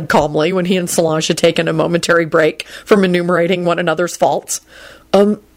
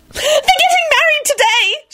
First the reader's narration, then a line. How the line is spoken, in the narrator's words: she yelled